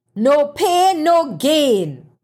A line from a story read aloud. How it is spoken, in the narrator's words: bellowed